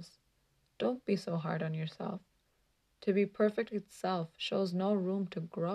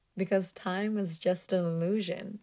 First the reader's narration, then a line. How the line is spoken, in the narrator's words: she laughed